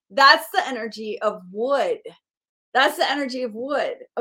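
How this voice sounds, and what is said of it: Excited shouting voice. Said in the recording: “I'm shouting right now. Do you hear the shout in my voice?”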